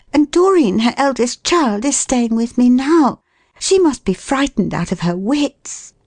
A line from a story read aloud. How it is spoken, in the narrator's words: I said eagerly